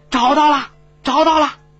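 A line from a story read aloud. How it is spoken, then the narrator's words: Loud soldier shout. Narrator (Chinese): 一个士兵 大声喊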